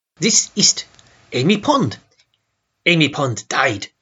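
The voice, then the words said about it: Poor put-on German accent. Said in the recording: “my German accent is nearly as bad as Neil Patrick Harris's”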